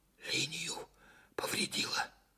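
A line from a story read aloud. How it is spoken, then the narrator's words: Whisper. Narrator (Russian): почему-то шепотом сказал Караваев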